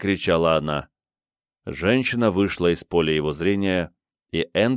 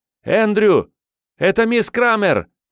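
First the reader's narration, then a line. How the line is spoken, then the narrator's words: Shouted. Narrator (Russian): крикнула она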